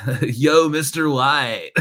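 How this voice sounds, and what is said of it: Inaccurate Jesse impression, Jeff-from-American-Dad voice. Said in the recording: “every time I want to do an impression of Jesse, I always revert to the voice of Jeff from American Dad ... It's not at all accurate whatsoever”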